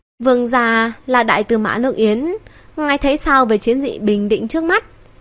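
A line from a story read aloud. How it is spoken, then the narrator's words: Smiling. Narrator (Vietnamese): Long Hưu mỉm cười nói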